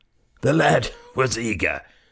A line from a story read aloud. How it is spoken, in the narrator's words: wheezed the director